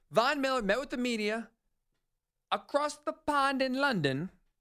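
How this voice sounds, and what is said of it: Bad put-on British accent. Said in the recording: “Terrible British accent, my apologies.”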